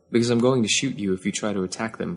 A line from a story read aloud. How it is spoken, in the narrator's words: Kaz said calmly